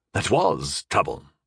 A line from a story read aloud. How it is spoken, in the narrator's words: Sir Ansel nodded gravely